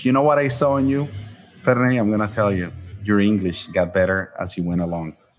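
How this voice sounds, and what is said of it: Speaks English with a foreign accent. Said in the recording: “I never got rid of my accent”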